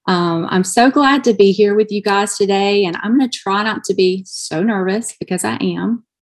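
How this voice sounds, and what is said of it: Southern American accent. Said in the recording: “I am from Alabama, so that's my southern accent still coming out.”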